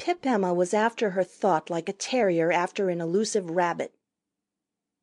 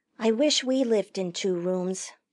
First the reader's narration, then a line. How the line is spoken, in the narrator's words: Janet said